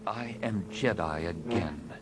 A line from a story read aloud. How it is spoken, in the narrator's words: he said quietly